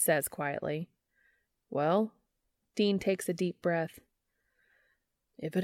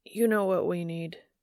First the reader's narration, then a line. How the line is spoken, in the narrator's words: he asks roughly